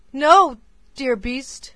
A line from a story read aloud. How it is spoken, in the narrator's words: cried Beauty passionately